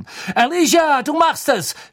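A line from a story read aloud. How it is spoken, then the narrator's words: Shouted into silence. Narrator (German): schrie Lee in die Stille hinein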